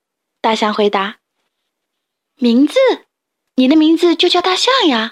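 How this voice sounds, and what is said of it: Usual voice. Nothing is said of it.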